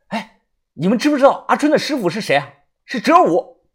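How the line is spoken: Loud. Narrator (Chinese): 大声的说道

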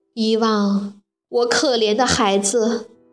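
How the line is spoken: Lamenting. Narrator (Chinese): 马克思雅看到粮仓里空空如也的袋子，不免哀叹起来

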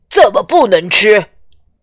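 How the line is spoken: Small animals shouting angrily. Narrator (Chinese): 小动物们气愤的喊起来

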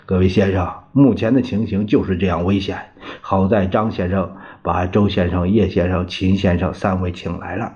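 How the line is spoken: Sighing. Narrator (Chinese): 端纳叹气说道

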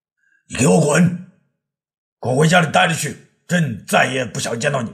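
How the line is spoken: Bellowing angrily. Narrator (Chinese): 他直嗓门吼道

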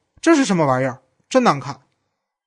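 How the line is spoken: Loud. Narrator (Chinese): 玛丽·克洛德用手指捏起萨比娜颈肩的陶瓷吊坠，大声说

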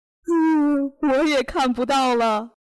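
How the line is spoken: Crying. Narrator (Chinese): 上帝哭着说

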